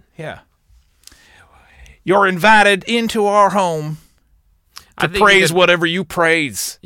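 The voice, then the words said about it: Preacher-style voice. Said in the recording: “You can make a very good preacher. ... I just feel like I need to talk in that accent.”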